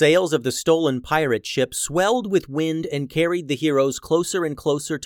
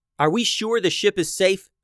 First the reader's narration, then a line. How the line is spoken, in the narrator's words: asked Tatiana